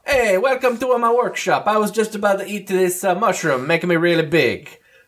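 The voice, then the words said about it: Super Mario-style Italian accent. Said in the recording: “has the accent of Super Mario”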